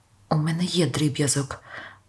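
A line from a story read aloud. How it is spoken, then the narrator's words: Muffled mumble. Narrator (Ukrainian): пробурмотіла Пет у сумочці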